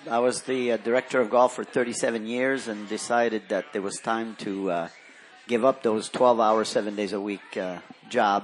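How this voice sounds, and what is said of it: French-Canadian accent. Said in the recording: “I detect an accent. Is that French-Canadian? ... Yes.”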